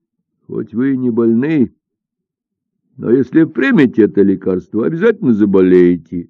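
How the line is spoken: Laughing. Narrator (Russian): засмеялся Додзигун

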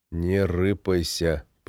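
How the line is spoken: Whisper. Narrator (Russian): прошептал я Сереге

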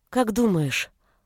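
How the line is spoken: Timid question. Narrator (Russian): робко спросила Галя

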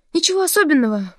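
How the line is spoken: Faltering babble. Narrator (Russian): пролепетала Нина

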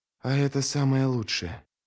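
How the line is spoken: Low voice. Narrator (Russian): вполголоса проговорил Ярви

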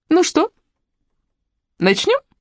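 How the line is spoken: Overly cheerful question. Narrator (Russian): спросила излишне бодрым голосом

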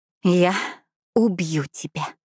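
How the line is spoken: Exhaled, exhausted. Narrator (Russian): выдохнула, откинув голову на стол

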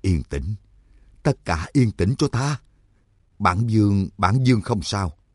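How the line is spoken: Trembling, stammering speech. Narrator (Vietnamese): Trắc Mặc Quần Ba thả xuống đất, hai chân vẫn còn hơi run run, chỉ nghe Tước Mẫu Dương lập cập nói

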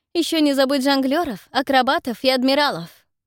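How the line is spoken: Cold tone. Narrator (Russian): Фелисити холодным тоном произносит

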